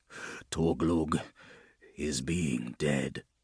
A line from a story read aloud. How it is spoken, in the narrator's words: he said, his voice hollow